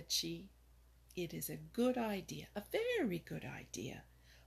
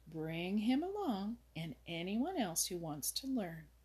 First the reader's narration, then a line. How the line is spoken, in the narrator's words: replied Old Mother Nature kindly